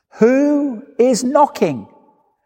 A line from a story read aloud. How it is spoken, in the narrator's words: the abbot inside shouted